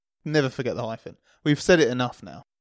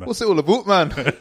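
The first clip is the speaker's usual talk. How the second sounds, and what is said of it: Unconvincing put-on Welsh-like accent. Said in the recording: “Does that sound authentic, Mark? ... No, it sounds like he's from Wales on the way to Swahili or something.”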